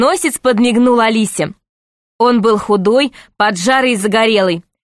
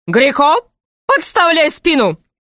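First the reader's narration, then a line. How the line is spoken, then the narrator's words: Shouted. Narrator (Russian): закричал рыцарь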